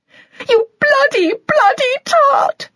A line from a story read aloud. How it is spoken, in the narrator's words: Stella shouted, crying now